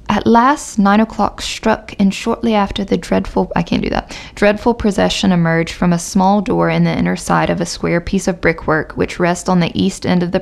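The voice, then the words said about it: Put-on British accent. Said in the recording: “should I continue in my British accent? ... It's going to turn into Australian, then country, and then something.”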